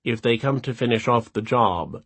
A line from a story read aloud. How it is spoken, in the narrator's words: she said dryly